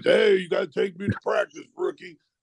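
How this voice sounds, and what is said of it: Deep voice imitating Austin Carr. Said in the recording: “Austin Carr comes in with that deep voice.”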